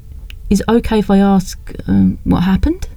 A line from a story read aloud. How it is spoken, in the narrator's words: She asked gently